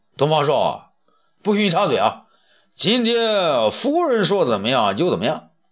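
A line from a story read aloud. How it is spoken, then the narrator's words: Emperor shouting. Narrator (Chinese): 武帝却叫起来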